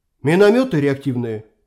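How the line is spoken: Trembling exclamation. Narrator (Russian): вздрожью в голосе воскликнул Юрген

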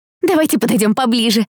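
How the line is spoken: Eager exclamation. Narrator (Russian): воскликнула Дейрил, у которой тотчас загорелись глаза

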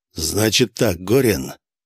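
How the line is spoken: Raspy growl in ear. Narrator (Russian): Не то прорычал, не то прохрипел мне в ухо Косяков

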